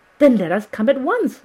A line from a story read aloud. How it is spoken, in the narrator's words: I cried